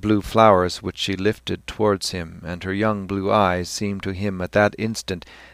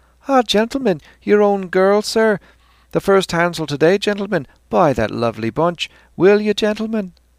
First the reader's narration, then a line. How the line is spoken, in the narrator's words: a young voice cried